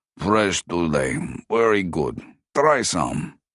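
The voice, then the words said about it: Rasping voice with Ukrainian accent. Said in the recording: “his rasping voice thickened by a Ukrainian accent”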